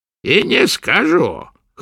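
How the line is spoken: Hoarse. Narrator (Russian): хрипло произнесла ведьма

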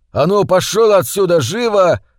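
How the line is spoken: Shouting. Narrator (Russian): закричал

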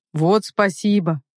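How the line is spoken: Snort. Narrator (Russian): хмыкнул Руслан

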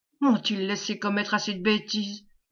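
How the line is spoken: Murmuring while running. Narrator (French): murmurait en courant

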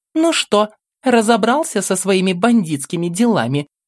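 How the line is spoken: Displeased, snide question. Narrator (Russian): одновременно недовольным и ехидным голосом спросила Белорецкая

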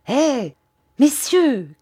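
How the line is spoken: Shouted. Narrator (French): cria-t-il

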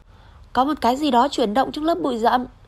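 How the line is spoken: Exclaiming. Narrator (Vietnamese): George kêu lên

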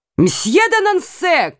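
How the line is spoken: King shouting. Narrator (Russian): крикнул король

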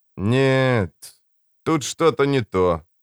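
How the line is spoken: Drawn-out drawl. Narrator (Russian): протянул Богарт

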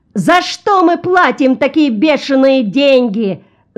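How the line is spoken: Small man yelling. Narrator (Russian): заорал маленький коротконогий человек

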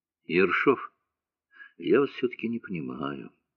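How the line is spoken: Quiet. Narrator (Russian): тихо сказал Морозов

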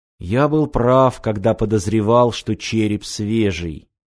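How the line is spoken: Quiet. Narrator (Russian): тихо произнес Володар

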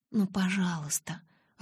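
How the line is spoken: Timid plea. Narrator (Russian): робко попросила

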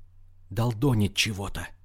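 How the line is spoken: Whisper. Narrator (Russian): прошептала Вероника

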